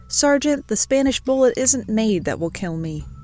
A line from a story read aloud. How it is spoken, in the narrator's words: O'Neill laughed, and reportedly replied